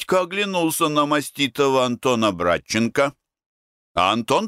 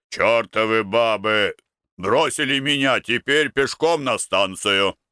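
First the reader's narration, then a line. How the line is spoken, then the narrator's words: Deep booming voice. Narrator (Russian): Халабуды, который забасил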